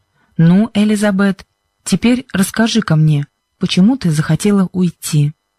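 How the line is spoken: Kind voice. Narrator (Russian): проговорил мистер Джонсон добрым голосом

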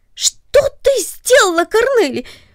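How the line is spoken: Sudden surprised cry. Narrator (Russian): вскрикнул он от внезапного удивления

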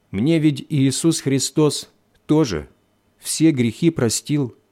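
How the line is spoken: Plain. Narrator (Russian): сказала она

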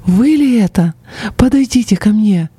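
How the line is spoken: Joyful exclamation. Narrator (Russian): просияв, она воскликнула

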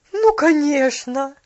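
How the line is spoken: Exclaiming. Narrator (Russian): воскликнула миссис Керри

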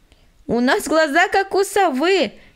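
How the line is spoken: Laughing from treetop. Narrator (Russian): засмеялась Аня с верхушки дерева

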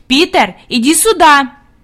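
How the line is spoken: Commanding shout. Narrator (Russian): Хади крикнула повелительным тоном

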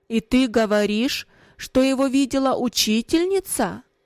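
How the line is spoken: Stern raised voice. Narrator (Russian): Отец повысив голос, спросил

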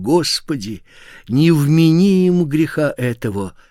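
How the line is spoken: Loud exclamation. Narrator (Russian): воскликнул громким голосом

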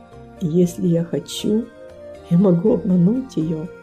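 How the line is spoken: Quiet, to himself. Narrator (Russian): Он тихо произнес, как будто про себя

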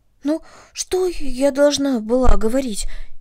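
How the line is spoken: Frightened question. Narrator (Russian): испуганно спросила Карнели

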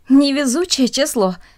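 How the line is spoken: Speech then laughter. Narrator (Russian): сказала одна из них и засмеялась

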